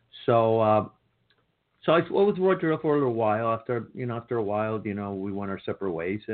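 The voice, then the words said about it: Speaks with a noticeable non-native accent. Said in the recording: “If you cannot hear the difference of the pronunciation, I can't teach you how to pronounce it ... I couldn't get rid of my accent.”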